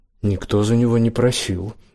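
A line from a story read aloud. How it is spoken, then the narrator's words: Angry. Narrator (Russian): зло сказала Зандра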